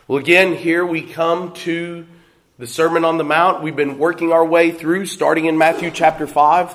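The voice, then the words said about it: Weak, failing hoarse voice. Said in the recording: “my voice is failing”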